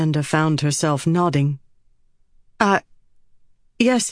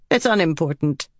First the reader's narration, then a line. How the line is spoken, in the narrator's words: Cerulea said curtly